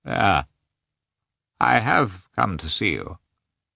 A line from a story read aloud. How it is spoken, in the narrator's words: said Nikolai, in a hollow voice